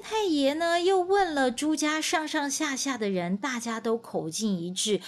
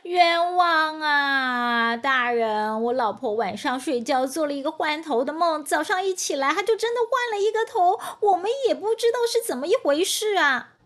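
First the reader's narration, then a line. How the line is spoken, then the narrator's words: Loud defensive plea. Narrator (Chinese): 朱尔旦在县太爷面前呢，大声的为自己辩解说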